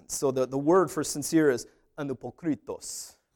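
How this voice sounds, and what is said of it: Mock Greek accent. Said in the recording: “I've been working on my Greek accent. ... I don't know what a Greek person sounds like. It just sounds like that to me in my head.”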